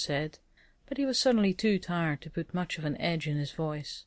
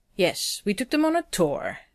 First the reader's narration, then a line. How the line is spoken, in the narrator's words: Rodney said, his voice bitter